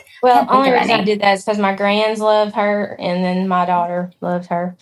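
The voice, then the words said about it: Southern American accent. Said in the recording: “you have your Southern accent. I like it. It works.”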